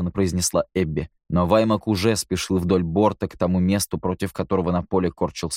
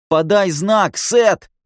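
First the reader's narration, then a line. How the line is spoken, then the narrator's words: Yelling. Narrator (Russian): заорал Ники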